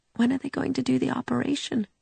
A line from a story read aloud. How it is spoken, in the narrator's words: she had asked a little sleepily